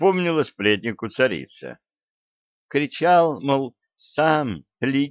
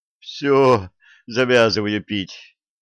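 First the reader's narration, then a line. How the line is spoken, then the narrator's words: Groan. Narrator (Russian): простонал царский сплетник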